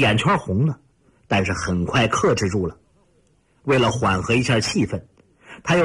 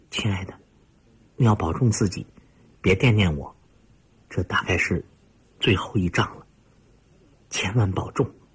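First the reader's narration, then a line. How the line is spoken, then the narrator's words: Soft low voice. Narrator (Chinese): 田宇温柔地……低声说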